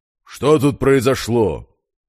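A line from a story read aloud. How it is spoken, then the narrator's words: Stern warden asking. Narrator (Russian): строго поинтересовался тот самый надзиратель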